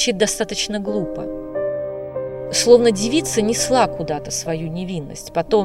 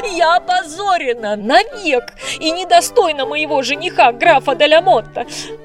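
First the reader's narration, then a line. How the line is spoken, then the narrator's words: Despairing cry. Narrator (Russian): закричала я, заламывая руки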